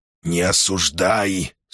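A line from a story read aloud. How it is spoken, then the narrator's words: Stern voice. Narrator (Russian): строго сказал Сибилла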